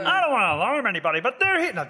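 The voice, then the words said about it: Attempted cartoon villain voice. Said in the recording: “I'm the Underminer... The John Ratzenberger... That's not bad... My voice is tight. I can't, I need to practice it.”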